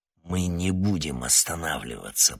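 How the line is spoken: Growled. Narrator (Russian): прорычал Штерн

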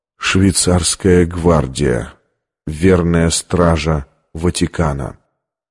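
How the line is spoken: Barely audible whisper. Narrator (Russian): едва слышно прошептал

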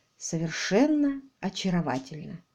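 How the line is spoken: Quiet. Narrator (Russian): тихо произнес он

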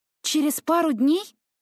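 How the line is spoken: Exclaimed. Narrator (Russian): воскликнула Паулина

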